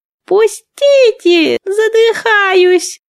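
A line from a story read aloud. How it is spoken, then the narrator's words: Squeaking. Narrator (Russian): пропищал Азя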